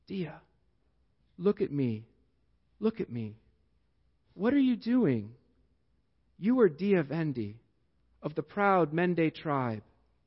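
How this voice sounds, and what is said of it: Thick put-on African accent. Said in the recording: “says in a thick African accent”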